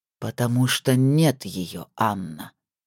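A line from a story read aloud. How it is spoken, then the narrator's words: Muffled, hollow. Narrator (Russian): прозвучало глухо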